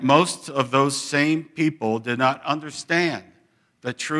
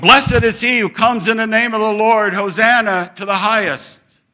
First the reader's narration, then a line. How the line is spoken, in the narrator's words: they were shouting